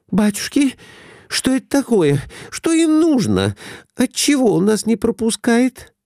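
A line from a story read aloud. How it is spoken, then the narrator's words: Frightened question. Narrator (Russian): спросила испуганно Глафира Семеновна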